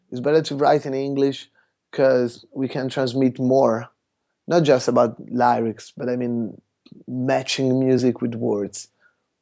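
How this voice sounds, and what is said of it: Italian accent speaking English. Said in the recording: “I try to speak a perfect English, which is not easy because in Italian you have a bit of accent”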